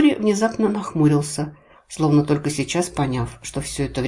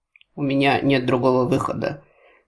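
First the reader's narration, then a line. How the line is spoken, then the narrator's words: Hollow, muffled. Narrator (Russian): глухо отозвался он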